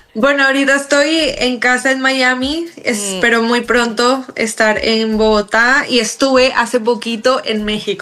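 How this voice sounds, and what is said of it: Colombian Spanish accent. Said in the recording (Spanish): “ese acento colombiano”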